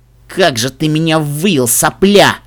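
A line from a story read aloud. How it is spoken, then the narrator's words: Furious growl. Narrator (Russian): С непередаваемой яростью прорычал Фрай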